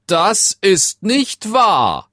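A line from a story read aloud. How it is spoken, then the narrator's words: King shouting angrily. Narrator (German): schrie der König zornig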